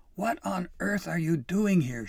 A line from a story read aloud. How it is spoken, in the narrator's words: She yelled